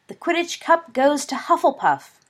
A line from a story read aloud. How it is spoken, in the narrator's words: cried the announcer